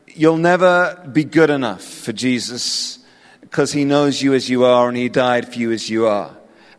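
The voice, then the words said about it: English accent. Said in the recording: “my weird English accent”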